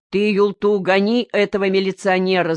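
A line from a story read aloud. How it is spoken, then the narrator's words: Crowd shouting. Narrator (Russian): закричали все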